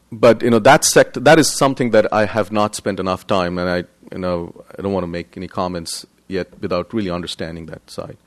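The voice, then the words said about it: Indian English accent. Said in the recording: “my looks and my accent, I am originally from India”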